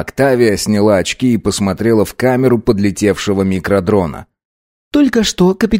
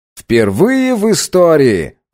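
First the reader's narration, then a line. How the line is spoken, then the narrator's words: Shouted out. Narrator (Russian): выкрикнул Август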